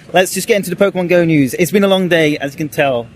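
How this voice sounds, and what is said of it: British English accent. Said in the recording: “you got a British accent”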